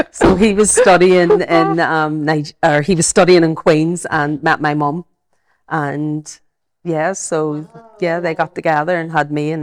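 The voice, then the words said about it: Belfast accent. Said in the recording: “I've got my Belfast accent”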